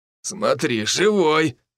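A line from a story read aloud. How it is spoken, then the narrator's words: Snorted. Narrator (Russian): фыркнул Санек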